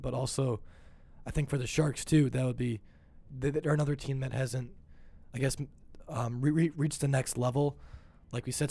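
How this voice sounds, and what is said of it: Strained, fading voice. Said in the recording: “losing my voice”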